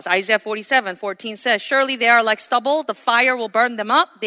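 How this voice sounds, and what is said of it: Speaks with a noticeable accent. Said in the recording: “I just added my accent in there.”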